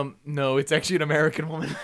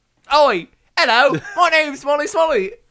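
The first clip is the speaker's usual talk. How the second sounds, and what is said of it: Put-on British accent. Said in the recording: “speak in a British accent”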